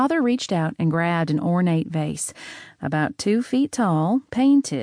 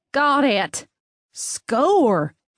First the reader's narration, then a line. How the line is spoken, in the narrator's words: Hank yelled